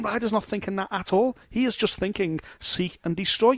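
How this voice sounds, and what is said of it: Liverpool Scouse accent. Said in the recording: “you may be able to tell through the tones of his accent that he's from Liverpool”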